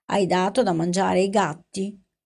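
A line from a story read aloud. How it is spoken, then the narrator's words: Yawning, hoarse question. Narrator (Italian): Tra uno sbadiglio e l'altro chiese con voce roca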